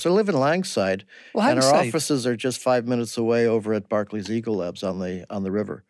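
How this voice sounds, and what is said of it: Chicago American accent. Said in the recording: “I'm a Chicago transplant... Never lost the accent.”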